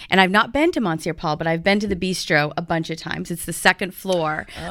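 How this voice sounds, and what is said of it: Usual voice. Nothing is said of it.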